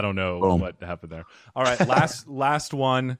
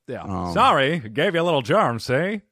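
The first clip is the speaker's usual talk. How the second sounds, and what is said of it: Put-on mafia-style accent. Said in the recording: “I think I turned into mafia.”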